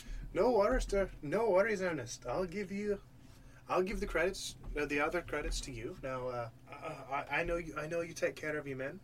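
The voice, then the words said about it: Put-on Irish accent, admittedly bad. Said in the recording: “He's supposed to be accent Irish. ... Trying to be Irish? ... I can do a stereotypical accent, but I'm trying to make it more like real, like a real Irish like, accent. ... It was going to be bad either way. ... Yeah, it is going to be bad ... Irish accent.”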